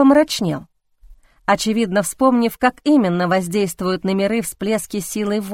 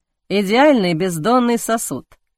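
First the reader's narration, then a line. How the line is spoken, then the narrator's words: Smirking grunt. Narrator (Russian): хмыкнул Арван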